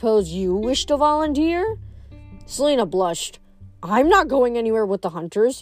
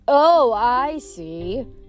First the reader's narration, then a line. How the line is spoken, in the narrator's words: Zoe said sarcastically